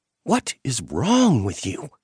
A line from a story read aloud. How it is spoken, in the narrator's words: she hissed